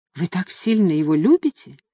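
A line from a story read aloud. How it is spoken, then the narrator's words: Soft question. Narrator (Russian): мягко спросила Люсинда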